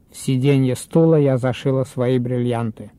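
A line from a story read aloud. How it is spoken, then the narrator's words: Flat, indifferent voice. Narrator (Russian): сказала Клавдия Ивановна деревянным, равнодушным голосом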